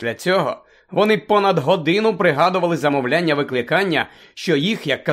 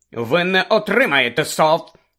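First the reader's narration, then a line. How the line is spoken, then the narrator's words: Stern proclamation. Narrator (Ukrainian): суворо проголошувала професорка МакГонагал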